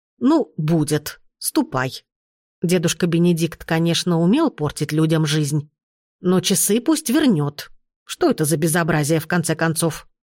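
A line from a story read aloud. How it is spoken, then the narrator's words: Stern. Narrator (Russian): строго сказала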